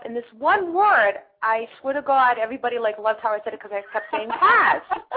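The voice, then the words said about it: Authentic Boston accent. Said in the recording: “my accent sounds pretty normal ... I talk the way I talk because I'm from Boston. It's the way I sound. ... authentic Boston accent.”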